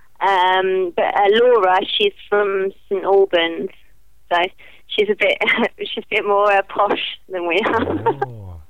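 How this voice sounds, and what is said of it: Northern English accent. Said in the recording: “Me and ... our accents are a little bit different because a lot of our family were from up north.”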